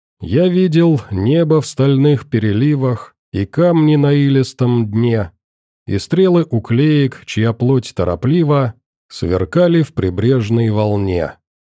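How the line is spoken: Gloomy recitation. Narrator (Russian): мрачно продекламировал док

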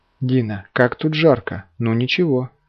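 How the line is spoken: Sighed. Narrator (Russian): вздохнула

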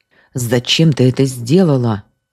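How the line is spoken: Menacing. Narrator (Russian): грозно спросил Журавлев

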